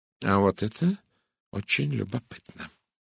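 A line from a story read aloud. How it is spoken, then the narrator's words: Thoughtful mutter. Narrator (Russian): задумчиво пробормотал Эркюль Пуаро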